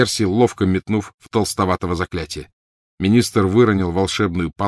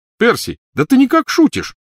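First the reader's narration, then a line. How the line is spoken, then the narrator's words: Exclaimed. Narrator (Russian): воскликнул Фред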